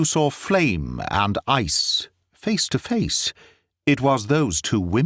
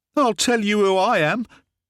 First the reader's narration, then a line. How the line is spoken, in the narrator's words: she cried, her mouth all twisted with passion